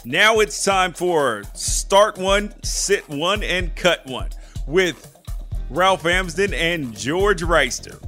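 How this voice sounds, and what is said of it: Game show host voice. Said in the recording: “put on my game show voice”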